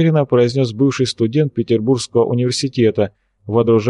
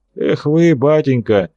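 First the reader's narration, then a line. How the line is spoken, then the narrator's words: Scoffing grunt. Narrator (Russian): хмыкнул профессор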